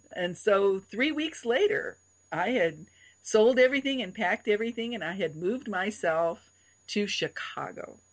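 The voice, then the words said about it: Loud, effusive, outgoing voice. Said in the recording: “as you can tell by my voice, I'm very effusive and I'm outgoing and I speak loudly”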